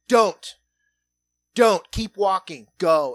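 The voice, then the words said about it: Stern, commanding dad voice. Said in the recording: “break out the old dad voice”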